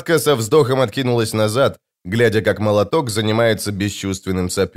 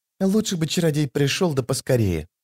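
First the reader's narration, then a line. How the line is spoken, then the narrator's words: Whisper. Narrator (Russian): прошептала дымка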